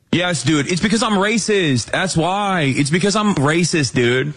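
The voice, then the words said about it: Sarcastic delivery. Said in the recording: “being sarcastic. I don't think he's actually genuinely admitting to being racist.”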